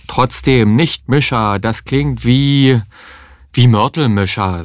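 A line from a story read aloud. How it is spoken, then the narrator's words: Plain. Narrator (German): sagte Heinz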